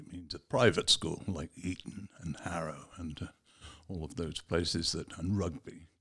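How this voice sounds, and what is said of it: English Received Pronunciation accent. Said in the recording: “people will say I have an accent ... a very pleasing accent ... It is actually called quite often a Cambridge accent ... or a BBC accent ... a public school accent”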